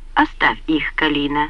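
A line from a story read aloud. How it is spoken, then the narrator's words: Calm yet commanding. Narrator (Russian): сказала она спокойно, но властно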